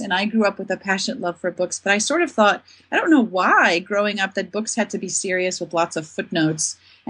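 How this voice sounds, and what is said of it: Mixed South African accent. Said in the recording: “I am South African, despite my confused accent.”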